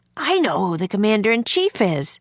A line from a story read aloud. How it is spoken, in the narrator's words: he exclaimed